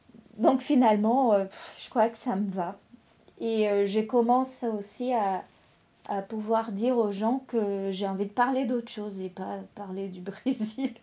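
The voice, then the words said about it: Non-native French accent, Brazilian. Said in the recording (French): “quand j'essayais de parler plus comme une Française, je me sentais pas moi-même... j'ai un accent”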